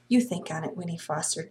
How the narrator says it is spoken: Jessie whispered earnestly

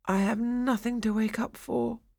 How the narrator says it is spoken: he muttered

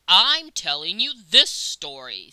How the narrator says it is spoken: said Father Worm testily

